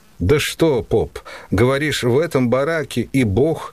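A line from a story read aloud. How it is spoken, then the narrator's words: Laughing. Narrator (Russian): И засмеялся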